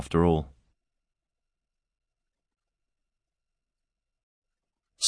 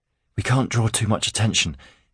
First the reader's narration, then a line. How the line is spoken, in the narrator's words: he panted